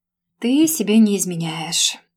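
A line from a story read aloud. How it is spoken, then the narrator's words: Tired exhale. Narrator (Russian): устало выдохнул Женя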